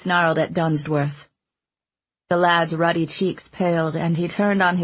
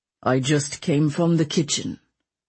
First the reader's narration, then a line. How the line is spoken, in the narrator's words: the Duke said gravely